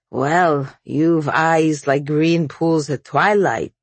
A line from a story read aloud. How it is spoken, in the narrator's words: he said, slurring